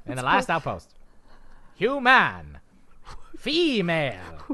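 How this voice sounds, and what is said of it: Put-on transatlantic accent. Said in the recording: “That's the Ferengi with a transatlantic accent.”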